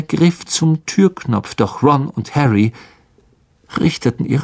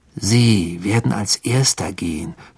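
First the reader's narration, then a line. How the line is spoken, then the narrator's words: Growling. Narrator (German): knurrte Ron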